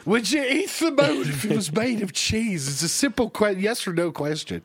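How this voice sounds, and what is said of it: Imitates another person's voice. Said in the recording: “Harry Carey impersonations ... it's actually not Harry Carey, but it is the Will Ferrell Harry”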